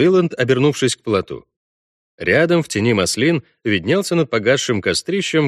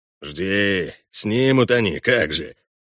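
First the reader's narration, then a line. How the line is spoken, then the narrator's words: Grumbling. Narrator (Russian): проворчал Хальгдаф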